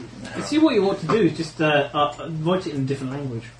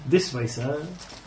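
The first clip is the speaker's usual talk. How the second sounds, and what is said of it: Butler character voice. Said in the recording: “I do my best Jeeves impression.”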